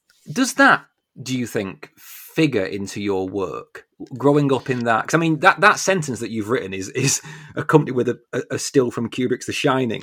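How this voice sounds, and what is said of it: Lancashire English accent. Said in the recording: “This is my H's coming through, my Lancashire H's ... That is a troublesome sentence for someone with my accent.”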